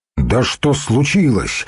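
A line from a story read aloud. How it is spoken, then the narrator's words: Exclaim. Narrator (Russian): воскликнул Духарев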